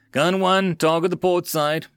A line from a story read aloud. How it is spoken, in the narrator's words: the XO roared